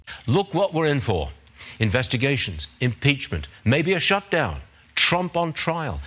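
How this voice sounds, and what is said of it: British accent. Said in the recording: “he's British. I love his accent.”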